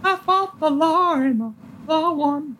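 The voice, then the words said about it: Sung in falsetto. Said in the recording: “That's just a falsetto, though.”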